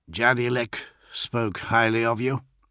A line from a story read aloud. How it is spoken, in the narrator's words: he muttered